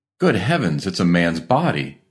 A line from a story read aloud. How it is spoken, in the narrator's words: he cried excitedly